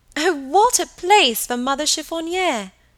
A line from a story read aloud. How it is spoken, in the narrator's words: cried Helen